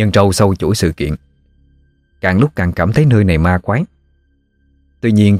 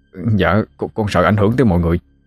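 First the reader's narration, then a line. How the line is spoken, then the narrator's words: Trembling reply. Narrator (Vietnamese): Thằng Mã run run đáp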